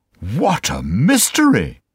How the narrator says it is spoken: cried

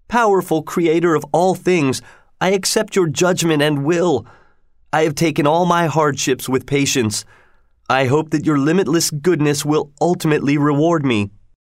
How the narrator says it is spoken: the young king cried out

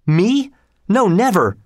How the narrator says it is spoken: exclaimed the young king

